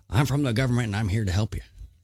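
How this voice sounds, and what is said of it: Weak Ronald Reagan impression. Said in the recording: “Reagan ... That wasn't a great impression.”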